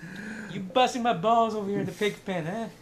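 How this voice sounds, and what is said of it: Put-on New Jersey accent. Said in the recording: “Got a Jersey accent ... He's like a pig farmer with a Jersey accent”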